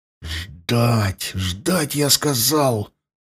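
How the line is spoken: Hissed. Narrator (Russian): прошипел Лёшка

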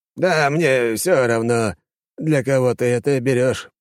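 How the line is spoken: Old man grumbling. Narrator (Russian): пробурчал дед

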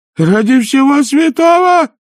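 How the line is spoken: Yelled. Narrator (Russian): завопил Овс

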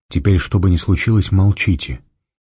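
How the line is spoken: Quiet and very serious. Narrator (Russian): негромко и очень серьезно сказал Фандорин

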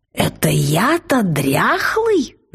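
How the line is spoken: Dragon's growl. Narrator (Russian): зарычал дракон

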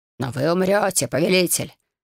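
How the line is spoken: Growling protest. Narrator (Russian): рычаще запротестовал Шейхас

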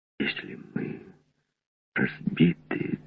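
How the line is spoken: Distant young whisper. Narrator (Russian): донесся шепот молодого Редвуда

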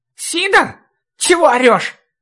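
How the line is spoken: Cracking shout. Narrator (Russian): давшим петуха голосом крикнул

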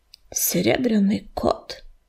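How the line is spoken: Mutter. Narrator (Russian): пробормотал он

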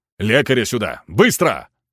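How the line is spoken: Superior barking an order. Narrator (Russian): гаркнул кто-то из начальства

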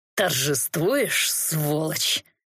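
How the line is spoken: Hateful hiss. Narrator (Russian): Ненавидяще прошипел тот

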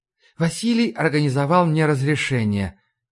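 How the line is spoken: Soft. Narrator (Russian): мягко ответила Ларри

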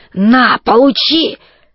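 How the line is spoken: Hoarse reply. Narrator (Russian): В ответ сипло

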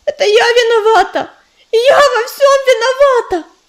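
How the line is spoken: Shouting. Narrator (Russian): закричала она

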